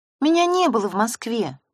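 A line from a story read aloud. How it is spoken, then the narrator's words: Sighing confession. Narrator (Russian): вздохнув, призналась Лариса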